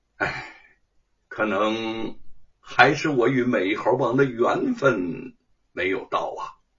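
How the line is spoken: Sighing. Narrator (Chinese): 叹息一声

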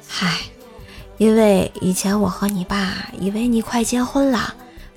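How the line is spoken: Sighing. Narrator (Chinese): 老妈当时叹了一口气，说道

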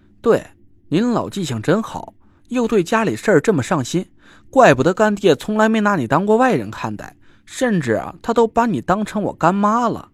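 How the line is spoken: Smiling. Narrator (Chinese): 我笑着说

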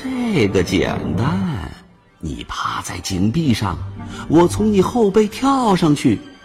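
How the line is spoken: Smiling, sly. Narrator (Chinese): 他笑眯眯的对着山羊说

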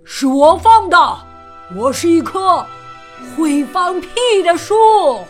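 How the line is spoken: Loud voice. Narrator (Chinese): 树大声说

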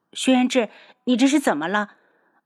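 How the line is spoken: Woman in pain, hurried. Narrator (Chinese): 女子顾不上腿上传来的疼痛，急忙道

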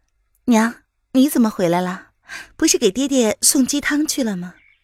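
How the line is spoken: Soft, gentle question. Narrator (Chinese): 娄雨嫣 柔声的问

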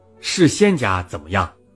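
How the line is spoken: Plain. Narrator (Chinese): 农民说

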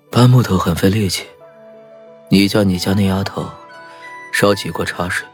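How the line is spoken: Whisper. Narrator (Chinese): 李化生低声在我耳边耳语道

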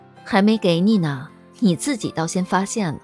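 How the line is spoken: Smiling. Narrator (Chinese): 一笑

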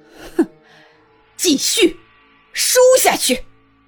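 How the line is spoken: Angry command. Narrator (Chinese): 静妃……顿时越加恼怒，下令

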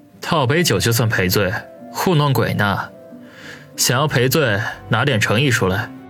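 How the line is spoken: Faint smile, cool. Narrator (Chinese): 王宇淡淡的一笑说

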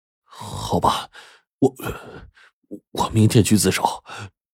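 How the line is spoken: With a long sigh. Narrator (Chinese): 长叹了一声，说

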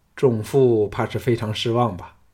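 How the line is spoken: Flat, indifferent. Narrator (Chinese): 项少龙淡淡的说

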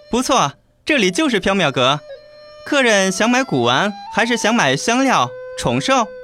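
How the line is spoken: Polite smiling. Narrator (Chinese): 黎奴彬彬有礼地笑道

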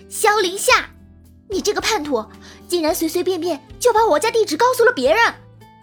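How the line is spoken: Loud interruption. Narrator (Chinese): 萧凌夏话还没有说完，玉星锤就大声的打断了他

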